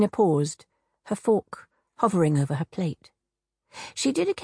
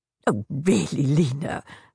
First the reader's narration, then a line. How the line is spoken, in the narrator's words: her mother laughed